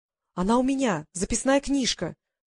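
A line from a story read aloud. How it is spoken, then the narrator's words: Exclaimed. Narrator (Russian): воскликнула Полли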